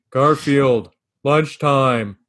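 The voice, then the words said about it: Imitates a cartoon character's voice. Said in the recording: “your John impression?”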